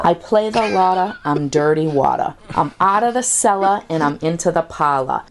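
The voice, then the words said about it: Authentic regional accent, dropped R's. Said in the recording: “My accent's authentic. I'm not trying to sell you. No, I'm not fake. ... I drop my R's”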